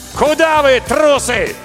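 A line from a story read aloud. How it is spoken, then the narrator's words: Shouted. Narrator (Russian): И крикнул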